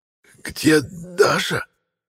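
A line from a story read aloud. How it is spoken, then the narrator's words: Hoarse rasp. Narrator (Russian): Прохрипел я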